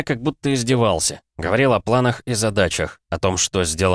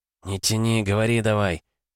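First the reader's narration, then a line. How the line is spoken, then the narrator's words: Whisper. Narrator (Russian): прошептал рядом стоящий микро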